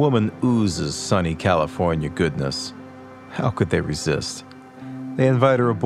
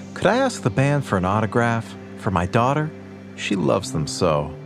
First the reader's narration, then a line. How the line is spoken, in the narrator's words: says sweetly